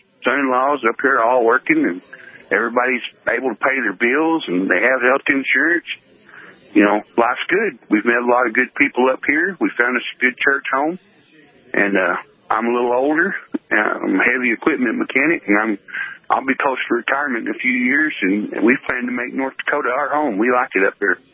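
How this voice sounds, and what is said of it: Distinctive southern US accent. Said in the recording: “You have a distinctive accent ... I'm from down south”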